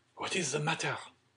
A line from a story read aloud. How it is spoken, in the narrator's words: asked Debray in a whisper of Madame Danglars